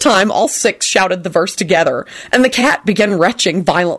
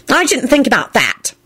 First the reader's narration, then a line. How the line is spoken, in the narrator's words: Dorcas sniffed haughtily